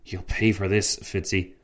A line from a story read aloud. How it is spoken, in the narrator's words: Tancred whispered to his friend